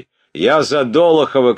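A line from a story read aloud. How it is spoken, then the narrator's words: Shouting. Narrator (Russian): кричал третий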